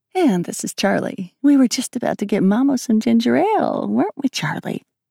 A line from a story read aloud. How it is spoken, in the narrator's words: Her voice pitched and fell